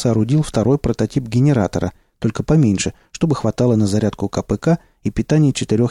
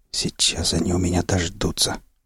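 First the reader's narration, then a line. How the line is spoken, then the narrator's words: Whispering. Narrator (Russian): прошептал Молчун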